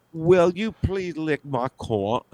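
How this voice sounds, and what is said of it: Put-on British accent. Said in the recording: “that British accent thing”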